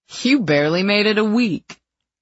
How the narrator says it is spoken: he scoffed

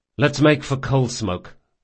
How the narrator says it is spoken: said Locke

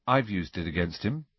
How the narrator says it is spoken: said Harry quietly

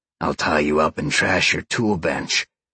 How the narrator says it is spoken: Sean growled

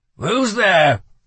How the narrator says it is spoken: he called out without turning

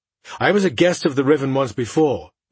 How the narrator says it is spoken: Merritt said in a hard tone

